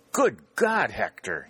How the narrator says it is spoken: cried

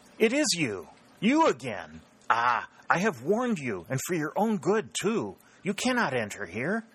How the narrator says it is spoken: exclaimed

